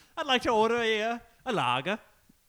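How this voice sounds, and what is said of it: Put-on London English accent. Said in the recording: “proper Londoner ... You sound like different types of orcs from Lord of the Rings”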